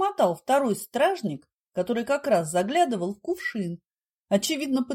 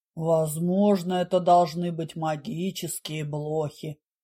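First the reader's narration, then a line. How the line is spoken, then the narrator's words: Undaunted booming from corner. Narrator (Russian): прогудел из своего уголка камеры герой, слегка потрепанный, но пожизненно не сдавшийся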